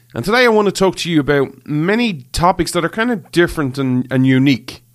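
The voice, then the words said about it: Irish accent. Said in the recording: “This Irish man ... where you come for the accent”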